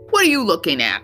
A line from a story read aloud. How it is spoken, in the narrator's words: Yao snapped